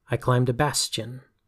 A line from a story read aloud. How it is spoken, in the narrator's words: snarled the intruder